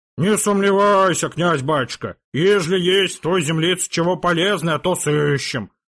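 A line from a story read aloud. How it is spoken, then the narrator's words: Deep bass voice. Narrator (Russian): пробасил младший Иванов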